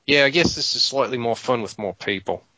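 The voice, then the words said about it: Put-on accent. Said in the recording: “like the accent.”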